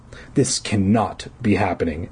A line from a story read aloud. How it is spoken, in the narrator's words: Eddie choked out